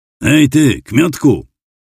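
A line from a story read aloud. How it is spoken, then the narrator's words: Shouted. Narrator (Polish): krzyknął Tobias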